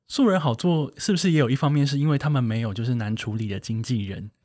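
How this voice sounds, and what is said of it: Suddenly speaking very quietly. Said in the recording (Chinese): “突然讲很小声”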